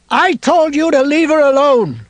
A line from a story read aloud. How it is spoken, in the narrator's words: Ralph shouted down the hill